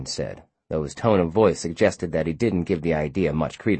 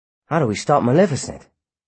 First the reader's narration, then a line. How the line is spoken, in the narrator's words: Philby asked anxiously